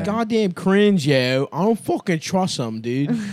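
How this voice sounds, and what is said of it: Put-on Baltimore accent. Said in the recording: “That sounds like a Baltimore guy.”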